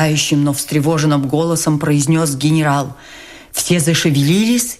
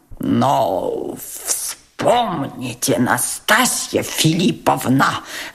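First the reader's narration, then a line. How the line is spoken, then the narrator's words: Stammering mutter. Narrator (Russian): запинаясь, пробормотал Тоцкий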